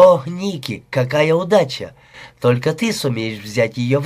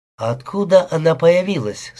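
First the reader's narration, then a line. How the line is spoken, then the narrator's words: Plain question. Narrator (Russian): спросил я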